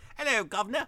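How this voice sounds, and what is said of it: Cockney chimney sweep British accent. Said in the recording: “I can really sort of only do chimney sweep British accent.”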